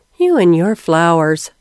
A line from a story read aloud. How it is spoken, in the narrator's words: Hattie sighed